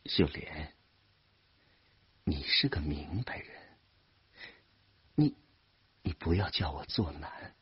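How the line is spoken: Gentle soothing. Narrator (Chinese): 声音尽量温柔的劝慰她

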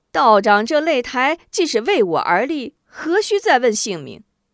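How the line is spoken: Hearty laugh. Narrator (Chinese): 吴中哈哈一笑

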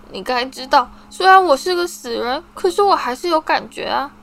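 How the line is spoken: Choked sobbing voice. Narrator (Chinese): 麦朵用一种哽咽的哭声说

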